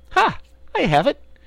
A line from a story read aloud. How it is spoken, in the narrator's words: she exclaimed